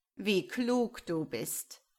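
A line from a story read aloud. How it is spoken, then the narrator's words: Mocking. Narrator (German): antwortete der Quetzal spöttisch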